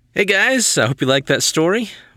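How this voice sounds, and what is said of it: Lingering put-on accent. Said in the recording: “I'm a bit stuck in that accent now, sorry.”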